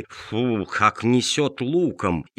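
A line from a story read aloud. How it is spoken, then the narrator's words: Displeased grumbling. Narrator (Russian): они недовольно морщили носы, ворчали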